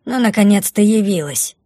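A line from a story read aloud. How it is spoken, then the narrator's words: Grumbling. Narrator (Russian): проворчала Бумба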